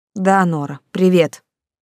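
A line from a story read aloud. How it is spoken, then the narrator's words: Dejected, deflated tone. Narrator (Russian): упавшим тоном сказала Ника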